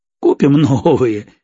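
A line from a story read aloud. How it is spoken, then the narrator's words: Laughing. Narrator (Russian): рассмеялся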